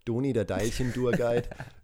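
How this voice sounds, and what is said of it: Put-on Franconian German accent. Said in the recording (German): “auf Fränkisch”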